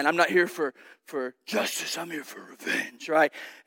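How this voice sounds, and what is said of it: Batman-style character voice. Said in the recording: “my best Bat Dad impression”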